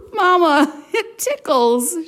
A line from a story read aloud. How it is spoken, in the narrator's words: giggled